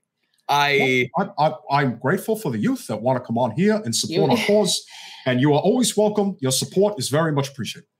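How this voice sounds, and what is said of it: Imitates another person's voice. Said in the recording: “that Bernie Sanders accent ... he's done some of his voices when we're on the phone, and it's really like, it sounds real.”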